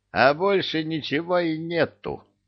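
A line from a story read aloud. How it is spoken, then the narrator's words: Sighing switchboard operator. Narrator (Russian): вздохнула центральная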